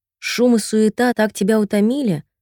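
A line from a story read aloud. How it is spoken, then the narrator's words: Plain. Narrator (Russian): спросила матушка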